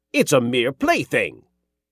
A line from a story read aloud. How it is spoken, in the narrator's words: the king snapped